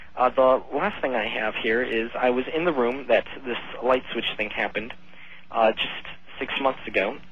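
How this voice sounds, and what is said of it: Slightly hoarse voice. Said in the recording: “my voice is a bit hoarse.”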